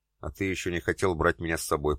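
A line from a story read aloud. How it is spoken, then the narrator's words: Muttering. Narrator (Russian): пробормотала девушка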